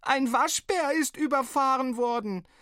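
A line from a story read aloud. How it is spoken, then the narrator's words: Sobbing bellow. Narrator (German): schluchzend brüllte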